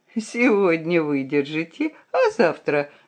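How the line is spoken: Laughing. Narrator (Russian): засмеялся портной

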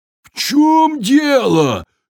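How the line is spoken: Frightened giant shouting. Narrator (Russian): закричал испуганный великан

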